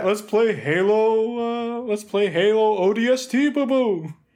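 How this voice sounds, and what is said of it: Cartoon bear character voice. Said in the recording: “It's a perfect impersonation of him... one of the hardest Hanna-Barbera characters to do the voice of”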